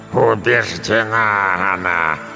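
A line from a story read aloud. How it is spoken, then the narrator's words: Grandmother growling, calming down. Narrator (Russian): прорычала бабушка, медленно успокаиваясь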